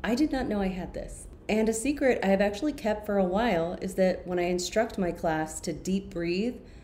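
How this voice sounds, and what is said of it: Calm, soothing late-night radio voice. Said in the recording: “my calm voice to help people relax ... my Center and Balance voice, which is the voice I'm using right now. I call it my midnight radio voice.”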